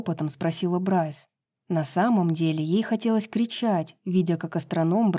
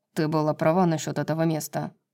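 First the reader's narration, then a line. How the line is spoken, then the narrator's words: Muttered. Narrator (Russian): пробормотал Тарион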